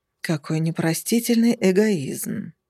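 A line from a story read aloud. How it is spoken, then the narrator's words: Male sigh right behind. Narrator (Russian): вздохнул мужчина где-то в районе моего затылка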